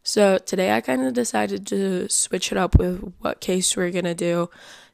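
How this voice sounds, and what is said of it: Slightly scratchy, sore-throat voice. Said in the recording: “My voice is a little bit scratchy. I definitely have like a little bit of a sore throat”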